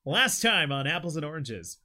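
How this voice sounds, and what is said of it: Announcer voice. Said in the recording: “Announcer voice.”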